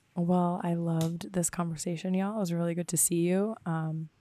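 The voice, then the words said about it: Raspy, hoarse voice. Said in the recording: “my raspy, I've smoked 6 cigarettes a day type voice”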